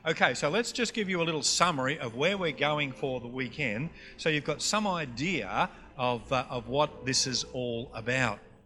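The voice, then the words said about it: Queensland Australian accent. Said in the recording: “my Queensland accent”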